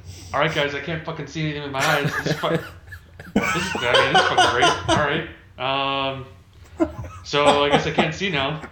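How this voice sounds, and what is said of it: Impression of a friend's voice. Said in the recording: “can I do a Zach impression? ... I would probably use that same tone”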